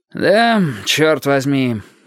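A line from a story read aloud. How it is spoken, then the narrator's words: Sighing. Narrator (Russian): вздохнув, сказал Петька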